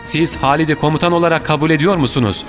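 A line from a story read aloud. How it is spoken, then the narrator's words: Shouting. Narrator (Turkish): diye bağırdı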